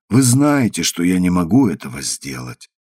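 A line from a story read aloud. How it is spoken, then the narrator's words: Sad. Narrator (Russian): сказала печально Гефсиба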